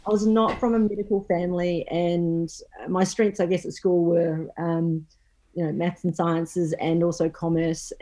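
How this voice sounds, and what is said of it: New Zealand accent. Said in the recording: “I'm actually originally from New Zealand, which you'll pretty much hear after. ... That twang.”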